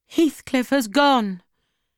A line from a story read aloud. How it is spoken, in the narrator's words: cried Catherine